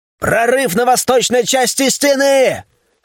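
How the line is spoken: Hoarse yelling lookout. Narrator (Russian): Срывая голос, орал дозорный

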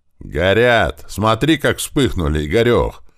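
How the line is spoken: Joyful yell. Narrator (Russian): заорал радостно рыжий Фрол

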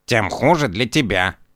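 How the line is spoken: Grumbling cat. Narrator (Russian): проворчал кот

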